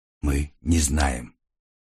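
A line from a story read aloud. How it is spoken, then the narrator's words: Quiet reply. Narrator (Russian): так же тихо ответил Триго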